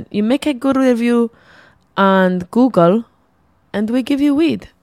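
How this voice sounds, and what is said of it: Poor put-on Greek accent. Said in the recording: “my terrible Greek accent”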